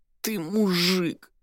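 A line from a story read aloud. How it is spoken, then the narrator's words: Pained, hurt moan. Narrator (Russian): простонала Соня, вложив в эти два слова всю боль и обиду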